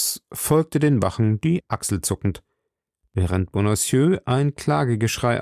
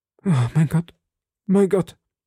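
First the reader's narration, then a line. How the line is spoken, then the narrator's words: Sighing shopkeeper. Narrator (German): seufzte der Krämer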